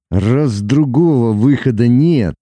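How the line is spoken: Through gritted teeth. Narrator (Russian): Сквозь зубы проговорил Лука

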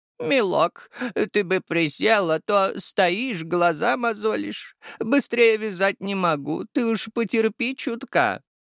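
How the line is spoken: Elderly voice. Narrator (Russian): старческим голосом произнесла бухгалтер

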